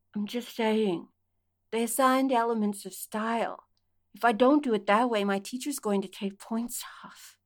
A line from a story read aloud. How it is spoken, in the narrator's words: mumbled into mouth